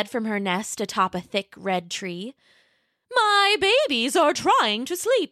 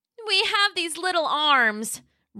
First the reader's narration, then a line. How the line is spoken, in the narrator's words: Roxy cried